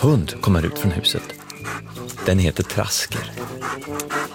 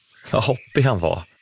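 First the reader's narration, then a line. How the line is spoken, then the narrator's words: Laughing. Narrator (Swedish): säger Brum och skrattar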